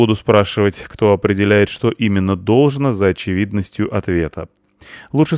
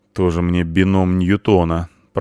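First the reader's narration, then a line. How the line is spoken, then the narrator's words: Grumbled under breath. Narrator (Russian): проворчал себе под нос Ингвар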